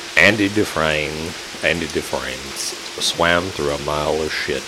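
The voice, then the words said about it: Morgan Freeman impression. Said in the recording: “do your impersonation of what's his name? ... Morgan Freeman”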